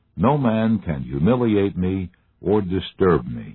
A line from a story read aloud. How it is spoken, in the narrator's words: he replied